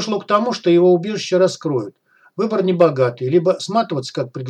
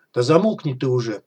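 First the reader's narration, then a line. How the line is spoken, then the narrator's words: Mutter. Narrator (Russian): пробормотал офицер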